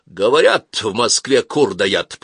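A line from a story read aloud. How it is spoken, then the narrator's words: Grumble. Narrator (Russian): проворчал Бульбаш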